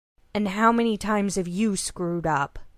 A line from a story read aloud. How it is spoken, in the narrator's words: Caleb growled, growing very tired of being dressed down in front of the other hunters